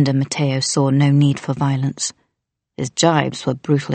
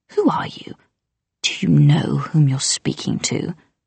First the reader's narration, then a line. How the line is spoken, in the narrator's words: hissed